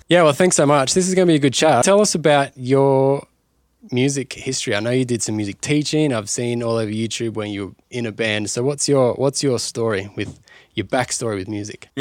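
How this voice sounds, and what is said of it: Australian accent. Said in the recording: “accent weird? ... I'm used to the Aussie.”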